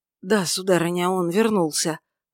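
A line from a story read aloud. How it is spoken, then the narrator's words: Hoarse voice. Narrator (Russian): ответил слуга хриплым голосом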